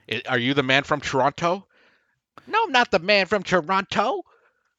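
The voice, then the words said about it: Imitates another person's voice. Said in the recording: “That's my Kevin Hart impression. ... Great Kevin Hart impression.”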